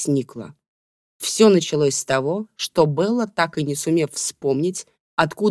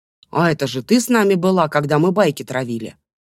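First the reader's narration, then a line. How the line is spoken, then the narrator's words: Sudden exclamation. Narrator (Russian): Вдруг воскликнул Иржик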